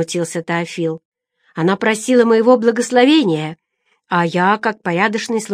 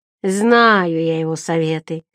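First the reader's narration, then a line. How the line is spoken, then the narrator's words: Resentful child grumbling. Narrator (Russian): злопамятно буркнул малыш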